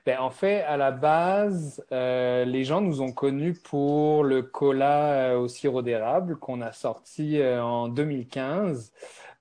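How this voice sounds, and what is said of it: French accent. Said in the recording (French): “comme tu l'as remarqué, euh, j'ai un accent français”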